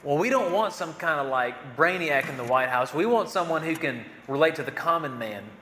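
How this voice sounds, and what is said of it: Imitated Southern American accent. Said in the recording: “my impression of a Southern accent.”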